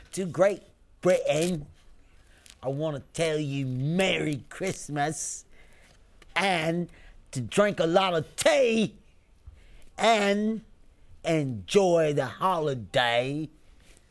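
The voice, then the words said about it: Put-on British accent, a little angry. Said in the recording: “A little angry. ... it's a UK accent. ... That's what he thinks we sound like.”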